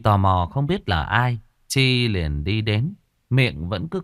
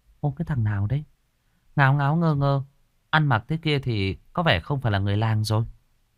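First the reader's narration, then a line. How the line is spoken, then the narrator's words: Muttering. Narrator (Vietnamese): Chi lẩm bẩm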